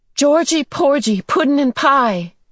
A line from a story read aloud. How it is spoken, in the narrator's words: she yelled